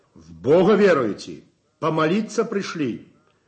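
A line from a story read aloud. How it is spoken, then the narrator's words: Stern question. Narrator (Russian): строго спрашивает он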